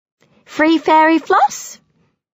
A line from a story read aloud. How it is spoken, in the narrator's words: offers Sophie brightly